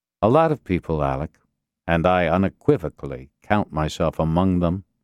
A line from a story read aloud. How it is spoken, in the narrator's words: Castillo said evenly